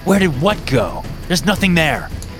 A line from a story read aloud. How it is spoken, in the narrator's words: snapped